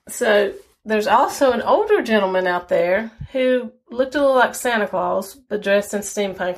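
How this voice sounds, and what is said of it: Strong Southern mountain accent. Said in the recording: “I know I come across with a very strong Southern accent. Part of mine is just Southern, and part of it is because I was born in the mountains, so it's kind of a mixed combination of that.”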